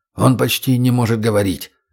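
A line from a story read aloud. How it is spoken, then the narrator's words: Whispered. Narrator (Russian): шепнул Виктор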